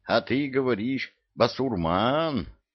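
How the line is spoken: Joyful eagle's cry. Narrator (Russian): Радостно прокликотал орел

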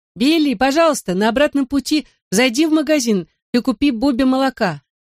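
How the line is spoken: Shouted. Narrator (Russian): крикнула Чили

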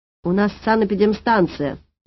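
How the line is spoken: Barking shout. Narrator (Russian): рявкнула я

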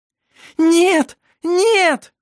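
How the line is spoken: Scream. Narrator (Russian): Закричала Шира

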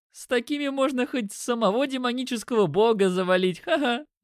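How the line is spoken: Laughing. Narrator (Russian): Я рассмеялся

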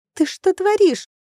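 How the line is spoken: Shriek. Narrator (Russian): Сильянель взвизгнула

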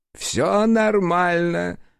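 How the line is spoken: Short chuckle. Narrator (Russian): хохотнул

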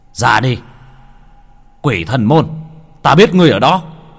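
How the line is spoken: Loud yell. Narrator (Vietnamese): Hắn gào lên

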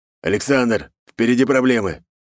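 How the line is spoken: Shout. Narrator (Russian): крикнул волк

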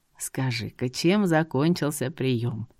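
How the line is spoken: Gentle old man. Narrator (Russian): Мягко спросил старичок

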